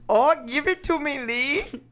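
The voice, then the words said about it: Attempted German accent sounding Indian. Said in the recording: “Do your best Hitler German accent ... That was a little more Indian ... That's Hitler if he was serving me a Slurpee.”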